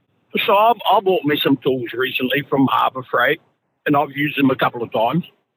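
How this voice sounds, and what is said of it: Tennessee accent. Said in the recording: “He's got an interesting accent ... It says it's a Tennessee accent.”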